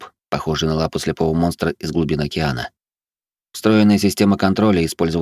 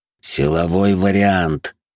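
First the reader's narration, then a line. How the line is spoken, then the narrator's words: Hissed through teeth. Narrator (Russian): сквозь зубы прошипел я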